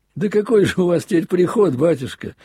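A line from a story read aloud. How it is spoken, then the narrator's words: Laughing. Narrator (Russian): засмеялся на этот раз я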